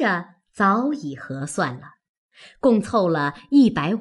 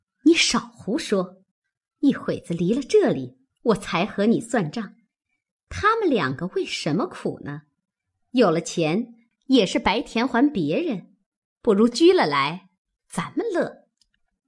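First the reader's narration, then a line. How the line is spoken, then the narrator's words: Sweet laughing. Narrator (Chinese): 凤姐也巧笑道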